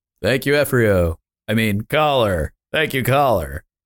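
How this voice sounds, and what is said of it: Radio announcer voice. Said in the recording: “radio voice.”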